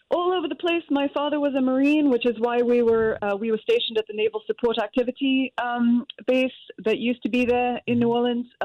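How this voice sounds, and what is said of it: English-influenced accent. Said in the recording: “where are you from originally with the accent? ... The accent is from when we moved to England when I was very small”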